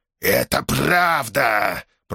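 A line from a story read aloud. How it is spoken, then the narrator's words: Hissed. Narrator (Russian): прошипел Врил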